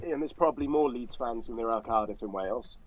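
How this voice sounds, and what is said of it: Cardiff Welsh accent. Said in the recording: “Do I detect like a Cardiff accent there?”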